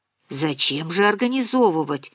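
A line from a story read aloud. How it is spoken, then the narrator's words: Uncertain objection. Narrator (Russian): возразила Нина неуверенно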